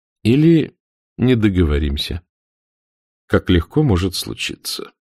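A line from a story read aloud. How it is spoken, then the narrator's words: Calm. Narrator (Russian): спокойно проронил капитан Блад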